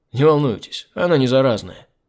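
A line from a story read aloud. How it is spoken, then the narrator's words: Snorting. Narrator (Russian): хмыкнул я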